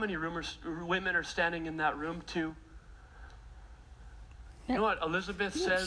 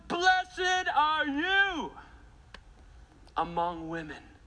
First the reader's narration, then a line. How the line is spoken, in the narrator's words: Elizabeth says in a loud voice